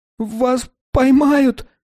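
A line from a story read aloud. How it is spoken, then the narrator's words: Sharp cry after pain. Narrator (Russian): вскрикнул, когда боль утихла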